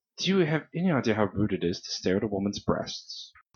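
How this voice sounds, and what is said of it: Character voice with an accent. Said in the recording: “It's your accent, sorry, threw me off.”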